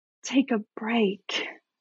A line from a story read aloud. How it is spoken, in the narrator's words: whispered the forest floor